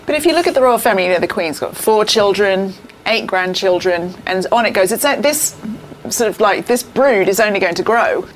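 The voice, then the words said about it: Australian accent. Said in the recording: “my Australian accent”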